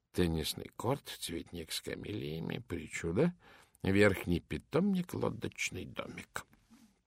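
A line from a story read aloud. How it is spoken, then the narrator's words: Muttering like an incantation. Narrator (Russian): Пуаро бормоча себе под нос, словно заклинание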